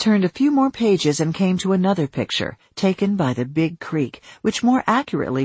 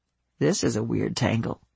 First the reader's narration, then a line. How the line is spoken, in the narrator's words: he muttered